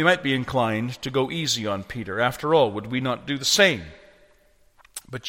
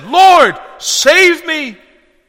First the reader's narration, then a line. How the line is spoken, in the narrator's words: beginning to sink, Matthew says, he cried out and he said